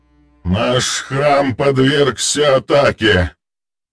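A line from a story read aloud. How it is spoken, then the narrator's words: Creaky voice. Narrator (Russian): проскрипел старший жрец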